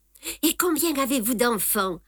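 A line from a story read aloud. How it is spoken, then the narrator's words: Light question. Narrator (French): a demandé Guillemette d'un ton léger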